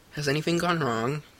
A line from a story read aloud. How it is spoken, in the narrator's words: Ned asked